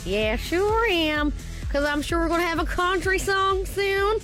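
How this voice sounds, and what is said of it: Put-on American country accent. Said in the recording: “You getting American now? ... I get a bit American”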